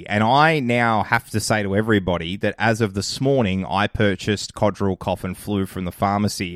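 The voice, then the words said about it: Voice sounds like a cold. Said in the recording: “I've actually got a little mini cold ... that's why my voice sounds a little bit different”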